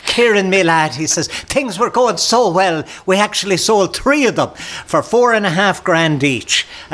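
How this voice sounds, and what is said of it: Put-on Irish accent. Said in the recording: “as he puts on a bit of an Irish accent.”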